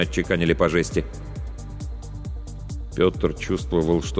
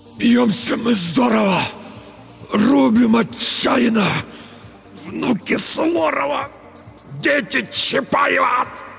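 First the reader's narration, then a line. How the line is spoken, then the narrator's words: Strained, forced out. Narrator (Russian): Только и смог выдавить Петр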